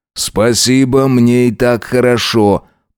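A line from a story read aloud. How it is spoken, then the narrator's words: Grumble. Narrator (Russian): проворчал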